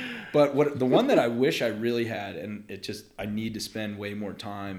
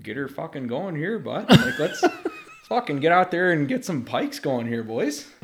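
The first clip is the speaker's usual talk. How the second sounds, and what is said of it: Put-on Canadian accent. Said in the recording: “how many accents do you think you can you could lay out? ... when we were in Canada”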